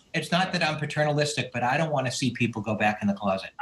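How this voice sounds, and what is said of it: New England accent. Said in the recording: “Nice to hear a New England accent. It's like coming home.”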